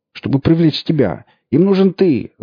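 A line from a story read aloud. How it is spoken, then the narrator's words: Shouted. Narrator (Russian): закричал бармен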